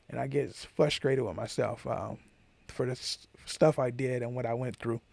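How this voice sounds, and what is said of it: Raspy, emotional voice. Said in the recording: “my voice probably went from clear to raspy all of a sudden. I get emotional ... my voice is probably changing”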